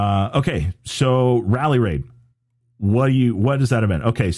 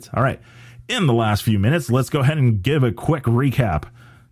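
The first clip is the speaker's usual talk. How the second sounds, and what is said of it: Sports talk radio announcer voice. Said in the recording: “That was my best sports talk radio voice.”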